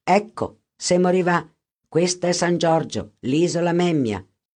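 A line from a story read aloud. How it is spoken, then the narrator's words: Plain, boatman. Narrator (Italian): disse il barcaiolo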